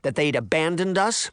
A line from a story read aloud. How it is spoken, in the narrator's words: Sabrina snapped